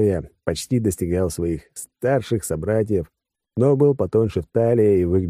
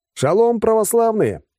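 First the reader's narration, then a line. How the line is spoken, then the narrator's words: Joyful yell on air. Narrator (Russian): радостно заорал я в эфир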